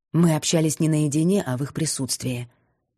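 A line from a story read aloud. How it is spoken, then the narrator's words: Forced calm retort. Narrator (Russian): парировала, пытаясь отвечать спокойно и уверенно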